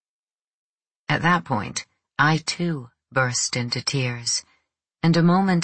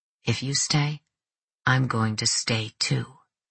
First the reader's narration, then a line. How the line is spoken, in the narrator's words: Enzo said softly